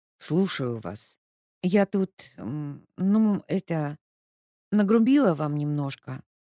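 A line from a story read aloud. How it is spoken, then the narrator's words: Mumbling, then blame-shifting tone. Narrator (Russian): начала мямлить Леська и тут же изменила тон, стараясь переложить свою вину на другие плечи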